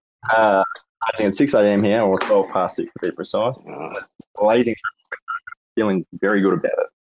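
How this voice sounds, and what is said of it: Australian accent. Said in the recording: “As if the accent wasn't a giveaway.”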